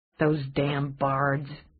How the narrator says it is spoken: Dana muttered

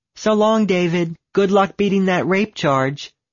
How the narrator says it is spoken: she turned around to yell

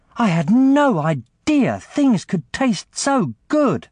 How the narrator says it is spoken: she exclaimed

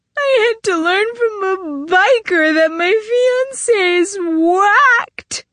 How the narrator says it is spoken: wailed

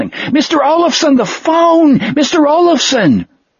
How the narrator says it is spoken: the clerk yelling

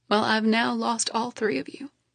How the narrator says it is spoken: croak out, letting more now gentle tears fall without shame

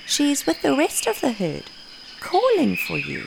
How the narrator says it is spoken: The wise old matriarch kindly said

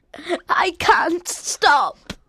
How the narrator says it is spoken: Colin sobbed

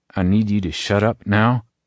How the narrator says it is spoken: Abram says through gritted teeth

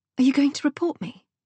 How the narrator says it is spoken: Cecilia gasped with what appeared to be genuine horror

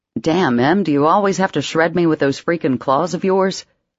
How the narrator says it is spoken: he grumbled

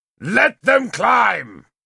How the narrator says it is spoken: Kiluk bellowed at our soldiers

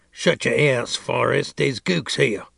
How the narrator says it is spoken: growl

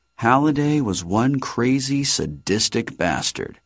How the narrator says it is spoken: Artemis muttered

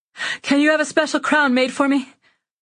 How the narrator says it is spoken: Panting, I say

